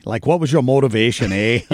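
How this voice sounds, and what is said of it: Imitated Canadian accent. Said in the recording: “he's got that Canadian accent, eh?”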